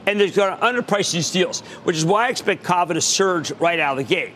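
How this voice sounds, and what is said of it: Strong Philadelphia accent. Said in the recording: “I have a Philadelphia accent. It's really bad.”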